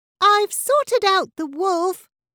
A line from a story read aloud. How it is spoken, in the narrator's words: cried Abby from deep within the jungle